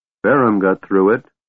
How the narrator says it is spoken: Caramon said grimly

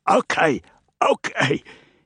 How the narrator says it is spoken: he croaked between coughs

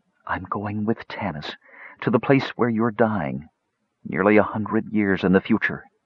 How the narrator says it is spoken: she whispered

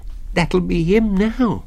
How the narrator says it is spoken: he whimpered

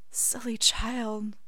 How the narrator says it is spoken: Remus reprimands softly

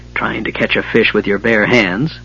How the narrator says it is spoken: Flint grumbled his disgust

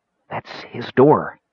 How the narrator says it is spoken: the Kender said in such a soft whisper Caramon could barely hear him over the beating of his own heart

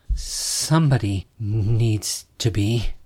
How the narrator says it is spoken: stammered

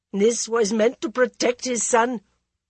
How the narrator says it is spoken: the Maharani said bitterly

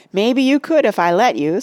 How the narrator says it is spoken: said with a laugh

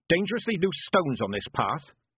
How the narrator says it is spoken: she said

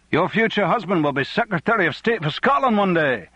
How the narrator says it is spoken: many of them shouted

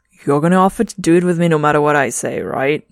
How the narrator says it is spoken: Trevor chuckles

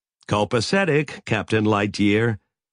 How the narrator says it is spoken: Sally said

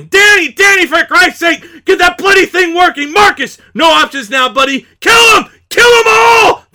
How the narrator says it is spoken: Mikey shouting

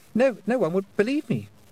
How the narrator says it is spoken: stammered

